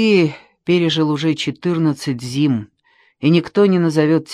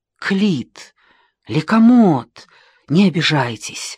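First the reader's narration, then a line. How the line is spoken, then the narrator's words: Fervent exclamation. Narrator (Russian): горячо воскликнул Геродот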